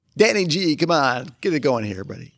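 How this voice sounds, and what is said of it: Radio DJ voice. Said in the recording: “you have a DJ voice”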